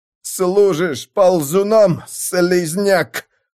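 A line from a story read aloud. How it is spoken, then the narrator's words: Groaned. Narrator (Russian): простонал Юхан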